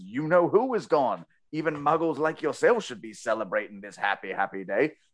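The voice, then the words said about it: Weak put-on English accent. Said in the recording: “My accent will get better as we go through the series.”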